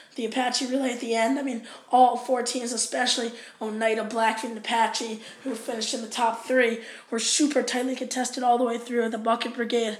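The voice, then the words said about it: Hoarse, strained voice. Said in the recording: “You probably noticed my voice a little hoarse. I was, screaming.”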